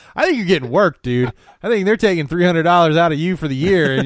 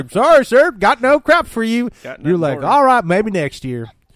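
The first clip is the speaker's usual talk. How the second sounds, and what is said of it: Put-on Indiana accent. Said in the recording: “I don't know why that accent is Indiana, but they some of them talk like that.”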